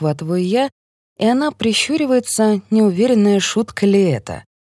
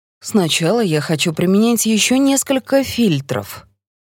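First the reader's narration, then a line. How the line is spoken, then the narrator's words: Thoughtful. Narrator (Russian): задумчиво говорит Сарика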